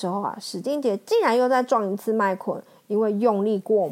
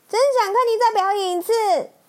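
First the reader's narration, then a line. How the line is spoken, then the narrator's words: Shouting. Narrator (Chinese): 麦昆对史丁杰大喊大喊着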